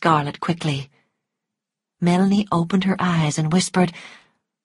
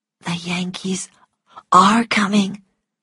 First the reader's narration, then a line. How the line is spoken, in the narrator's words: whispered Melanie